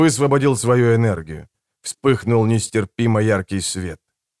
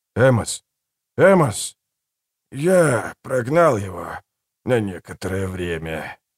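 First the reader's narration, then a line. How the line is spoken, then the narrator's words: Quiet, strained. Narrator (Russian): с невероятным трудом тихо произнес Убер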